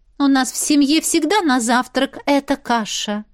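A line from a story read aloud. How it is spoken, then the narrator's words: Haughty. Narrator (Russian): надменным тоном сообщила Кэти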